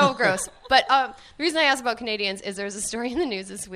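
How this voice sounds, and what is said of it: Usual voice. Nothing is said of it.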